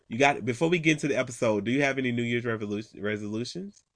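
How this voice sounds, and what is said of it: Loud, yelling voice, sounds sick. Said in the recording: “sick as hell ... I think I'm yelling at y'all too”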